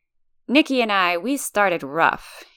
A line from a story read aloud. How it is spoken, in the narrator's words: he chuckles, as if saying understatement of the millennium